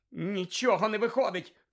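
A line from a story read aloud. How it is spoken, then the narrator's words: Wizard shouting. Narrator (Ukrainian): крикнув інший чарівник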